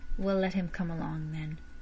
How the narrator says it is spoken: saying huskily

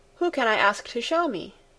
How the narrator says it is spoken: asked again

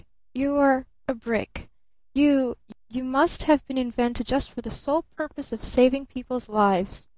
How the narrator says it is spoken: stammered

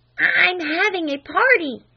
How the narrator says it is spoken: hissed Flame through the keyhole

